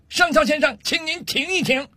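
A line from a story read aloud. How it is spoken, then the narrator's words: Angry shouting. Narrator (Chinese): 上尉气得涨红了脸，冲着上校的方向大声喊道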